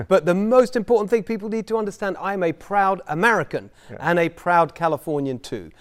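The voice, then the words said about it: British accent. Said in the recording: “You grew up in the UK ... I've got the accent still. People can see I'm working on that.”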